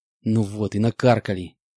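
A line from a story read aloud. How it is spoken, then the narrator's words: Hissing. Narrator (Russian): прошипел я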